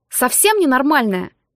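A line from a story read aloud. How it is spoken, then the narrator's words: Snapping retort. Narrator (Russian): огрызнулся он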